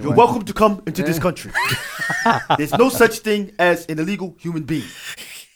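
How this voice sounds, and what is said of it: Imitates another person's voice, put-on accent. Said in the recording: “You're starting to sound like somebody. That's not a Vermont accent. ... It's 7-Eleven.”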